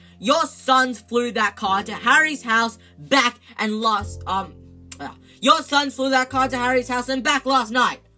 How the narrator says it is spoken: shouted Mrs

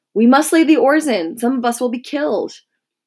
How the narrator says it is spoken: Porcus on duty again came swaying and lurching down the deck, and he shouted the overseer

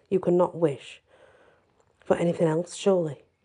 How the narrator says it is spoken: Diana said nervously

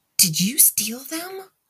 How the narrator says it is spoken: Nibble gasped in shock

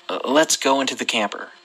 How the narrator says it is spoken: my uncle said in a scared and serious tone

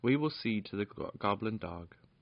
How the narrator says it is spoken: said Lord Roland grimly

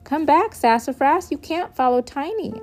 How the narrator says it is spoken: I hollered

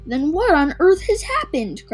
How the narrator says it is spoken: cried Mrs

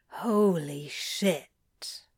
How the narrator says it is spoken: Crowley mutters

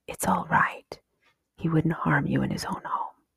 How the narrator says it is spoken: Jeremy whisper very softly

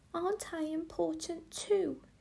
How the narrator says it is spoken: She sobbed

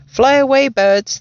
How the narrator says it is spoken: they used to shout

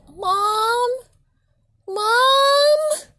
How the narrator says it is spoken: internally screaming out

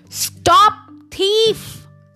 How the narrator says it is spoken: someone roared

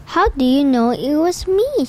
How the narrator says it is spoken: asked

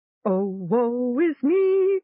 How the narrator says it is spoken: Gom chanted happily

